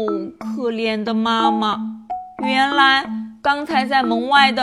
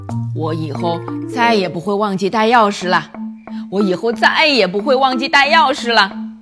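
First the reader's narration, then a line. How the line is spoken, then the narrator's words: Repeated muttering. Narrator (Chinese): 不停地咕哝着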